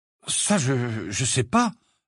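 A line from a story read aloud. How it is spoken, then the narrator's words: Uncertain reply. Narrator (French): répondit-il d'un ton incertain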